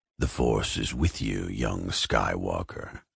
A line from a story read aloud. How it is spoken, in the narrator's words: Vader rasped